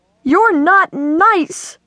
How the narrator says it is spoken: she yelled

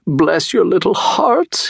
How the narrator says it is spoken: he cried, falling to his knees

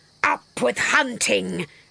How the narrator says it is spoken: And they shouted

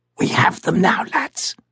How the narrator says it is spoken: whispered the officer

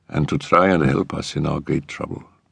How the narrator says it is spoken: said in a low, musical voice

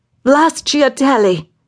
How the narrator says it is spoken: she shouted in irritation

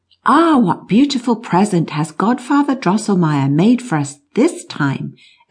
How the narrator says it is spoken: exclaimed Maria

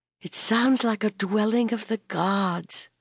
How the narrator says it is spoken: sighed Brenna

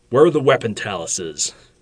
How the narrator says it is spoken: Argentus growled

